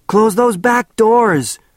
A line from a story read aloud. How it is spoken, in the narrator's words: shouted Bert